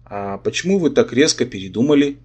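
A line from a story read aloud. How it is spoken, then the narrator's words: Gentle inquiry. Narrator (Russian): мягко осведомился Сигизмунд, принц крови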